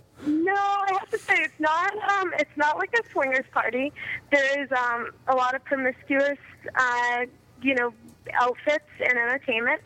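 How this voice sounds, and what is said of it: Very young-sounding voice. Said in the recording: “you sound very young ... You have a very young sounding voice”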